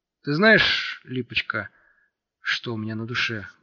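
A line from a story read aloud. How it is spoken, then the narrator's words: Muffled mutter. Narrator (Russian): глухо пробормотал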